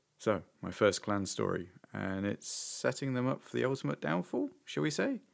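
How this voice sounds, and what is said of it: Unwell, rough-sounding voice. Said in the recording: “I've been under the weather this week, so my voice isn't great”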